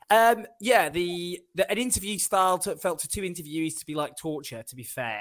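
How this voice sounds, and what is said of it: Faded whiny northern English accent. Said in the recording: “my whiny northern accent, what's left of it”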